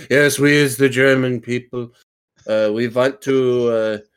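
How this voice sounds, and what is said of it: Fake, bad German accent. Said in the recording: “I just started talking in a German accent. I just faked it. ... you had the worst German accent possible.”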